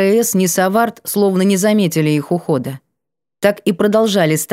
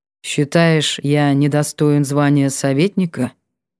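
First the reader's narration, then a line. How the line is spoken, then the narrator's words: Muffled reply. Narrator (Russian): глухо отозвался Сиятельный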